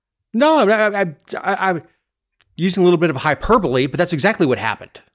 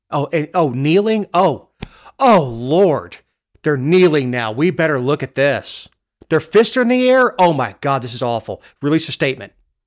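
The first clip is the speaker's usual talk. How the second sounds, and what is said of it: Sarcastic mocking delivery. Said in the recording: “you're being sarcastic”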